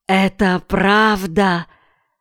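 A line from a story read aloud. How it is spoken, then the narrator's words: Hissing voice. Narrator (Russian): Голос капитана походил на шипение воздуха, выходящего из пых-пыха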